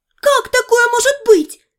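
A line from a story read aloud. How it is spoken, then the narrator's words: Angry shouting. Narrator (Russian): кричала Дейла от злости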